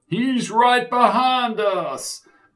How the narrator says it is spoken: cried Sid

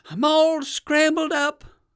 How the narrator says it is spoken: cried the alligator

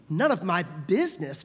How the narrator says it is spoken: Paul snapped back

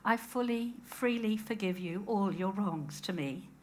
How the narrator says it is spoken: faltered

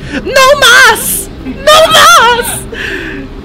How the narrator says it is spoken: Mario started screaming

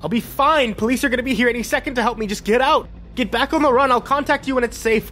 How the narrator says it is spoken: Clark yelled

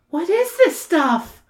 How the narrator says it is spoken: Sam moans deeply

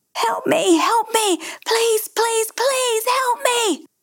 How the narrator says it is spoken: The screams went on relentlessly

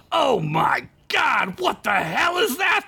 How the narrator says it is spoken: the mayor shouted

